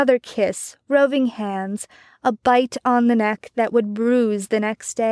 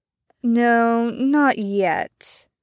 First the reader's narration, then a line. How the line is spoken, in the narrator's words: Arthur said in his best seductive voice